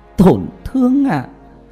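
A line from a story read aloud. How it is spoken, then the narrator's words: Laughing to tears. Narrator (Vietnamese): Tam Nương cười to, cười đến rơi cả nước mắt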